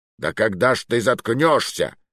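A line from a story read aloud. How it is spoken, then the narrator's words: Barked. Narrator (Russian): рявкнул он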